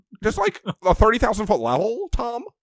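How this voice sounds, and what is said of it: Imitates another person's voice, not well. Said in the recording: “That's not a good Owen Wilson impression”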